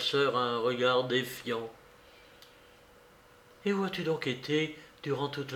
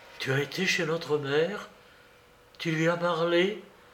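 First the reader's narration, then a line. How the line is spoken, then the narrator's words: Terrified exclamation. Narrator (French): s'écria Dounia, épouvantée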